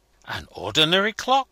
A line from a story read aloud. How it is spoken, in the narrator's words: exclaimed Obenreizer